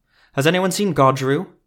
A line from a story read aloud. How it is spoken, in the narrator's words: a woman shouted